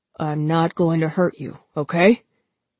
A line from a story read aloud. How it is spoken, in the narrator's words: He was panting hard